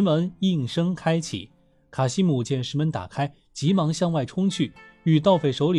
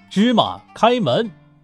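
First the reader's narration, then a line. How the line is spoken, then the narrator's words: Loud commanding shout. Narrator (Chinese): 盗匪的首领黎安 高声喊道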